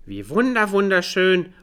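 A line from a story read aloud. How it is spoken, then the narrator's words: Calling out. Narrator (German): ruft Olchi Mama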